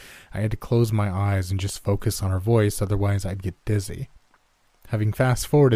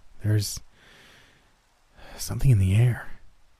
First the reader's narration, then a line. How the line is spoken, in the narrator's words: she said in a breathy voice